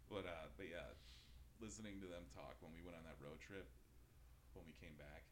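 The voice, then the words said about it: Midwestern American accent. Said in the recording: “I'm from the Midwest. I'm sure I've got this weird accent when I say certain things”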